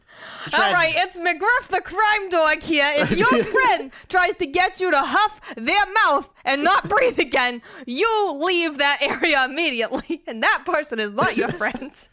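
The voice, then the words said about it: Cartoon character voice, unclear accent. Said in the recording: “I don't know what accent I'm doing.”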